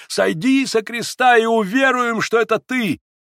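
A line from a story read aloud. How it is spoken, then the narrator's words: Mocking taunting shout. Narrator (Russian): кричали тебе, издеваясь и дразня тебя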